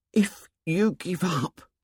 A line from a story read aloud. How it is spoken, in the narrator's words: said Piggy in an appalled whisper